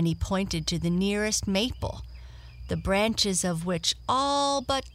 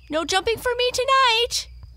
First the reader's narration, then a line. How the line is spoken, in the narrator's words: he piped in a shrill voice